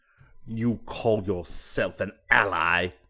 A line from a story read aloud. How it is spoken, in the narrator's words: he sneered